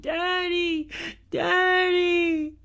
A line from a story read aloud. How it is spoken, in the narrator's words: Ashley, one of the twins, started crying and screaming